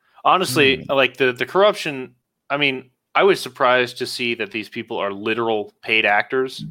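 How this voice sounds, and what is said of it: Usual voice. Nothing is said of it.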